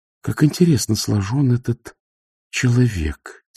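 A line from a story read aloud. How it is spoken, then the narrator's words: Quiet. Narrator (Russian): тихо сказала Сибилла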